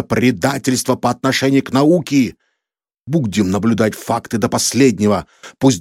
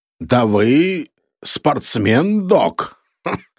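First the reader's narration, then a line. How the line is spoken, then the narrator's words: Loud laughing. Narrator (Russian): захохотал Сканлин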